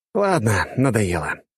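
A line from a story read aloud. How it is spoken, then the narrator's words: Sigh. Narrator (Russian): вздохнул он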